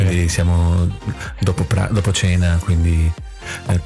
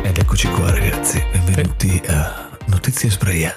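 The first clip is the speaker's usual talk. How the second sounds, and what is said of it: Affected, low seductive announcer voice. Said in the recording (Italian): “volevo fare una voce un po' impostata, un po' bassa così, per ammaliare le femmine”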